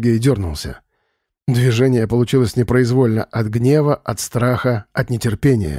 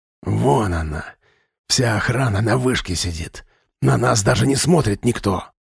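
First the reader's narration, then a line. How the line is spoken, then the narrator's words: Hissed. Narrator (Russian): прошипел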